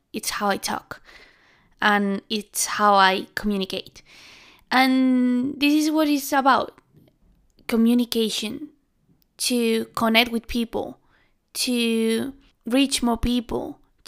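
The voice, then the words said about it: Spanish accent. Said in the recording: “my accent. Uh, it's really Spanish”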